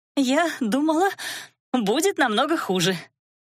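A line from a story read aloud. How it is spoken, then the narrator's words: Nervous giggling. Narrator (Russian): нервно хихикая выдала Элира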